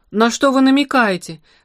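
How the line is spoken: Exclaiming. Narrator (Russian): воскликнул Простаков

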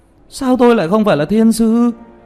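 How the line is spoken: Discontented yelling. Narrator (Vietnamese): Tiểu Mã bất mãn kêu gào

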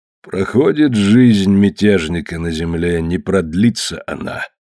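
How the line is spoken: Gloomy mutter, old priest. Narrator (Russian): мрачно пробормотал старый жрец

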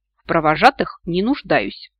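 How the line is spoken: Snort. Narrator (Russian): фыркнула

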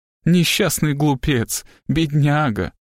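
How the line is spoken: Wheezing, affectionate purring tone. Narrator (Russian): Элизабет выдавила смешок, от которого у нее засвистело в легких, и тем же ласковым, мурлычащим тоном обратилась к Фенкарту

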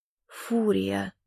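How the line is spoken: Whisper. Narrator (Russian): прошептал Калипсо

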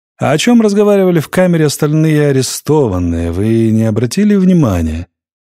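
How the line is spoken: Drawled. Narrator (Russian): протянул Ренадо

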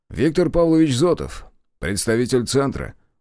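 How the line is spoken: Brisk cheerful report. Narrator (Russian): бодро отчитался Зотов

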